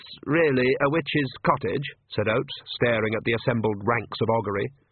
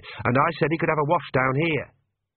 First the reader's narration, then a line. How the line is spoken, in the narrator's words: said Agnes sharply